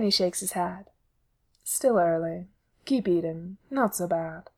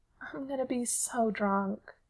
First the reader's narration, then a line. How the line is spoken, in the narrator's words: Sid sighs